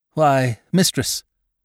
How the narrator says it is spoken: broke in the cold voice of David Spry

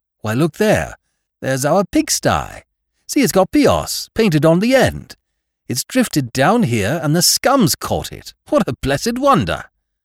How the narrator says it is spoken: the second mate called out excitedly

